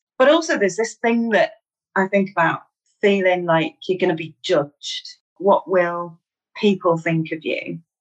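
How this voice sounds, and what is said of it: Mancunian northwest English accent. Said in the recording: “There's a whole regional accent thing ... I'm from Manchester in the northwest of England. I'm a Mancunian ... I still feel really self-conscious about my accent”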